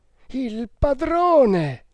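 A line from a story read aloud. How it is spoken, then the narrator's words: Heartbroken exclamation. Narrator (Italian): esclamò con voce straziante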